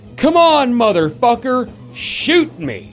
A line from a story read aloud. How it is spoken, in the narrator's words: I hear this voice behind me yell loudly